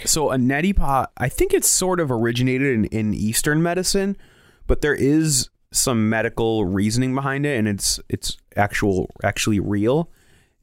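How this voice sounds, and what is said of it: Voice sounds sick. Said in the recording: “as you can hear in my voice in the last few episodes, I'm sick”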